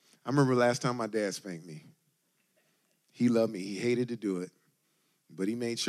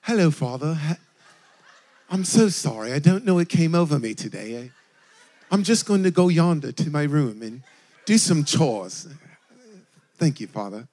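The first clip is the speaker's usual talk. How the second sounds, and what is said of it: Put-on British accent. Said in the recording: “I started speaking with a British accent and everything.”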